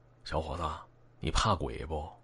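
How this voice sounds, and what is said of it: Quiet, hushed question. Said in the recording (Chinese): “小声的呃问大超”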